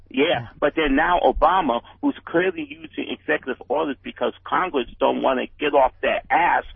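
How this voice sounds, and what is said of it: Bronx accent. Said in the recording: “There's nothing better than a Bronx accent with that.”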